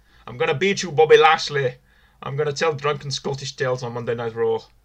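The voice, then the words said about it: Scottish accent impression. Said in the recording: “That wasn't actually a bad impression. That was pretty good, actually ... he sounds like a drunk Scottish uncle”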